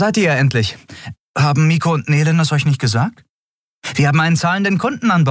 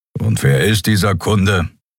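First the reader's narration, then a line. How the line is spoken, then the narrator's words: Grumbling. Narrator (German): brummte Kero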